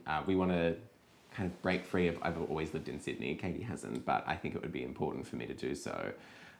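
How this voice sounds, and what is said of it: Australian accent. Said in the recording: “still having an Australian accent.”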